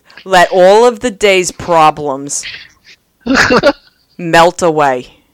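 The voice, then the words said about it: Exaggerated thick Long Island accent. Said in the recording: “gonna lay on the Long Island accent extra, extra, extra thick ... that Long Island accent. It's good ... I tried real hard to thicken it up”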